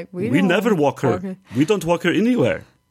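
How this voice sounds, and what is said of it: Imitated Bulgarian accent. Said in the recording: “That's their Bulgarian accent.”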